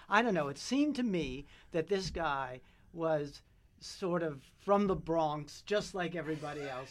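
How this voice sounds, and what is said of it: British accent. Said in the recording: “you can hear me. I'm talking with a British accent.”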